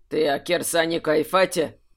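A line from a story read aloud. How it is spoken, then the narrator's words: Dry question. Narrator (Russian): сухо спросил Архимаг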